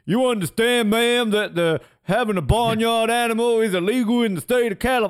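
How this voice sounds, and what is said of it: Attempted New York cop accent. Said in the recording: “I can't do a New York accent, but like he's got a New York accent ... stereotypical New York cop ... like a Joe Pesci style”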